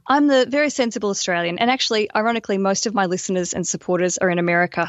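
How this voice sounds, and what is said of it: Australian accent. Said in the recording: “I'm the crazy Australian ... we love the love accent ... I get away with a lot of extra stuff because of this accent.”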